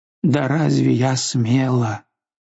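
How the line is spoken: Moaning. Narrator (Russian): Она простонала

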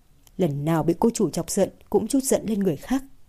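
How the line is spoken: Relieved sigh, muttering. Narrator (Vietnamese): Thời Dũng mới thở phào một hơi, lẩm bẩm nói

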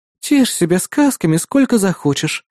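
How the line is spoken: Sighing. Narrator (Russian): вздохнула Кри

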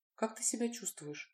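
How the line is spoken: Whispered question. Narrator (Russian): шепотом спросила Лина

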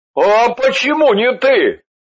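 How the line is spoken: Indignant question. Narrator (Russian): возмущенно спросил Андрей

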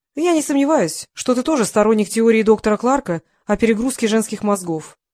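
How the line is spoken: Loud. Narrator (Russian): громко произнесла

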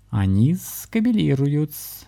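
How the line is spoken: Laughing explanation. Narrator (Russian): все еще смеясь, пояснил кот

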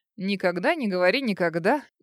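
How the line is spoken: Cheeky laughing. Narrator (Russian): дерзко рассмеялся ей в спину

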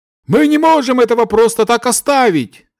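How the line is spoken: Shouting out. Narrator (Russian): выкрикнул один из эльфов

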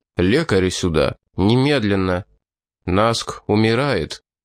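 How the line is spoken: Quiet. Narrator (Russian): Мласт негромко сказал

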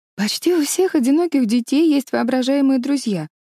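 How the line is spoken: Pleading objection. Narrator (Russian): умоляющим тоном возражала Лорен

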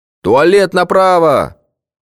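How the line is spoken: Shouted after someone leaving. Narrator (Russian): крикнул вдогонку психонарколог

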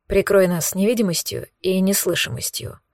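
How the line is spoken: Whisper. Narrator (Russian): шепнул мне Кирилл

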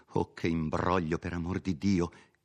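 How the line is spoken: Exclaimed. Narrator (Italian): esclamava Agnese

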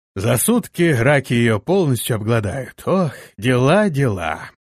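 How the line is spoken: Grumbling. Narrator (Russian): Боцман проворчал

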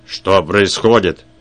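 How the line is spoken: Roaring. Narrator (Russian): проревел он

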